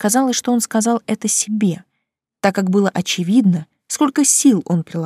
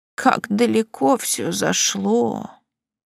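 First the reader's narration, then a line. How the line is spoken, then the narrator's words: Barely audible mutter. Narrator (Russian): наконец пробормотала еле слышно тетушка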